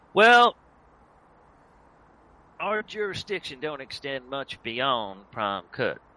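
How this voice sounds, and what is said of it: Put-on character accent. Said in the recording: “Don't test my accent, boy. ... You don't want to see me when my accent breaks ... I thought I was doing quite well with that accent”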